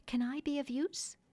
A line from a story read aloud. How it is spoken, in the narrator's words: as if saying timidly